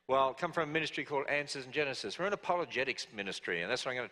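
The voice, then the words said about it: Australian accent. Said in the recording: “my accent... I originally come from down under... an Australian accent”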